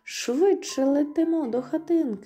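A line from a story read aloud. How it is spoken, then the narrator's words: Exclamation. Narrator (Ukrainian): вигукнула Флора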